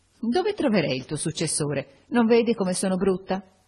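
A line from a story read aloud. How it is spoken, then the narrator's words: Laughing question. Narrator (Italian): ridendo mi domandò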